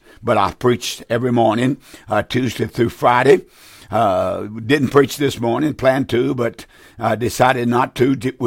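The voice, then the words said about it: Raspy, hoarse voice. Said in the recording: “my throat is a little bit raspy ... I'm a little hoarse”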